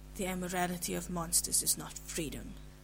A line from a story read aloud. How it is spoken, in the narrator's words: Cass said harshly